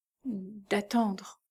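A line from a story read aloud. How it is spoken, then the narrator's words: Stammering, choked voice. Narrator (French): balbutia Mary d'une voix étranglée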